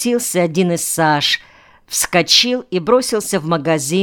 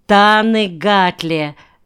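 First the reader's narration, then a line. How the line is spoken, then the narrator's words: Female laughter. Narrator (Russian): засмеялась она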